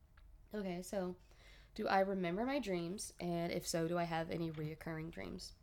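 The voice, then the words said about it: Stuffy, congested voice. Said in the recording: “I'm a little stuffy, so if my voice sounds a little weird, that's why. ... it's just allergies ... I'm just trying to be able to use my nose.”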